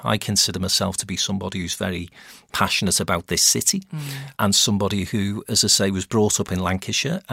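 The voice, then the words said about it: Scouse (Liverpool) accent. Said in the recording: “I don't consider myself to be a Scouser working in Manchester ... the accent aside”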